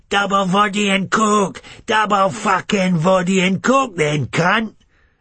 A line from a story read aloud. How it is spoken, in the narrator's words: some cunt inside it is screaming